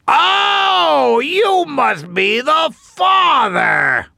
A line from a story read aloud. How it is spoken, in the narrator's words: The tree shouted